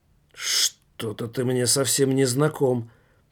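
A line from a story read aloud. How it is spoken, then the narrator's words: Mutter. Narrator (Russian): пробормотал Томмазо Кампанелло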